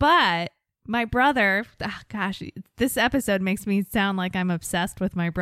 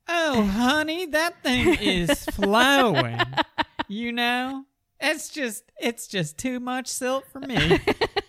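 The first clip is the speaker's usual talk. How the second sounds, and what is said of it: Southern twang. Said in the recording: “my southern twang comes out when I'm talking about rivers”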